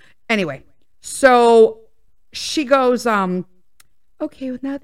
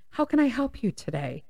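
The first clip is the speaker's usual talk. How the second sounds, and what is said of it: Polite customer service phone voice. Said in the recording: “customer service voice ... this is how customer service talks ... The inflection changes.”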